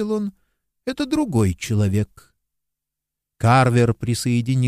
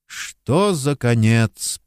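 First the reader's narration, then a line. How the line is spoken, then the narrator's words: Mumbled. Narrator (Russian): пробормотал детектив Карвер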